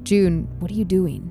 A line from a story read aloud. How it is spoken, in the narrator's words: grumbled